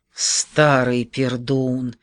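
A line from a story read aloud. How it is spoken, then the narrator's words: Quiet cheerful hiss. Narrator (Russian): прошипел тихонько, весело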